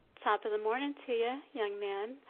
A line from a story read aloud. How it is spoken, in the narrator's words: Madeline responds cheerfully